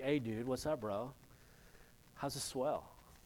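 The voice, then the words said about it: California surfer accent. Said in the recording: “I think they heard his accent ... if you hear a California surfer, for example, I mean, like the real California surfer”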